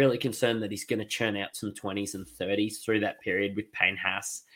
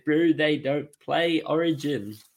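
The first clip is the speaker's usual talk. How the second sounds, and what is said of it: Poor put-on New Zealand accent. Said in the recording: “that was an awful Kiwi accent. Terrible.”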